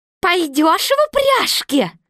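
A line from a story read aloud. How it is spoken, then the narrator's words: Old woman's shrill question. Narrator (Russian): старуха визгливо спрашивала льва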